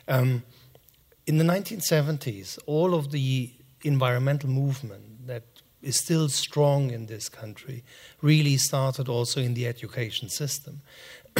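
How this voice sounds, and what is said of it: German accent. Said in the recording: “I'm German, as you can say, from my accent.”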